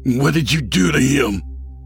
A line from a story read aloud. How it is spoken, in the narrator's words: Fred snarled